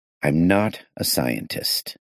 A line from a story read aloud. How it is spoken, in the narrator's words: I said slowly